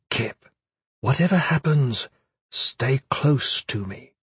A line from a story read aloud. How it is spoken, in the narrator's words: Caris whispered, leaning close